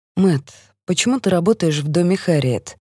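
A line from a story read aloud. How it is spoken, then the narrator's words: Gentle question. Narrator (Russian): мягко спрашиваю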